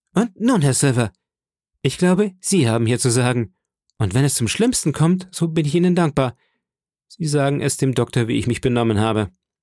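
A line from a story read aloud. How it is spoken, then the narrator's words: Call. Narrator (German): brach ich wieder los und rief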